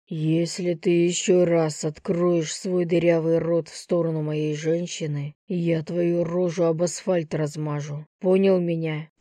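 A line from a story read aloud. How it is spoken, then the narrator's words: Growling threat. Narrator (Russian): прорычал Лев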